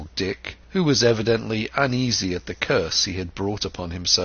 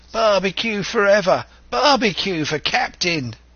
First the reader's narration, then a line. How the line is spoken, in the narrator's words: they cried